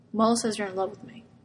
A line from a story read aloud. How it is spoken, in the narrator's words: Arthur murmurs